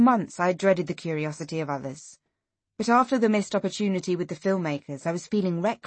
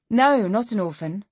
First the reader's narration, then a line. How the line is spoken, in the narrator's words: I said